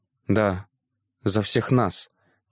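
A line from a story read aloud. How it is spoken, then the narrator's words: Soft, quiet. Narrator (Russian): тихонько проговорил Адриан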